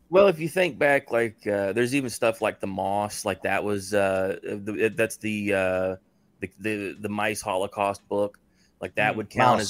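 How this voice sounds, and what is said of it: Rural country accent. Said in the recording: “forgive my accent. You know, I as a person of country, I say things a little strangely.”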